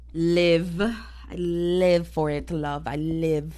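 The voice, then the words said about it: Sudden put-on accent. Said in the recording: “I don't know where the accent came from.”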